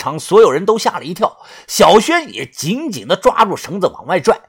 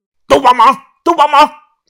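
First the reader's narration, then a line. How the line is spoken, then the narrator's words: Straining loud shout. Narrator (Chinese): 于哥额头上青筋浮现，他大喊着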